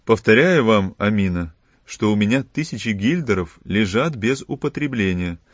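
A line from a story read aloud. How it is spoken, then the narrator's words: Plain. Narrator (Russian): сказал Филипп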